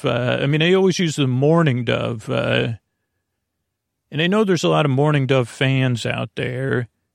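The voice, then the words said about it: Lulling, soothing, creaky voice. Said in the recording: “I send my voice across the deep, dark night. I use lulling, soothing, creaky, dulcet tones... my voice is a bit different. It's not melodious or catchy... creaky dulcet tones. It's a sound you're aware of.”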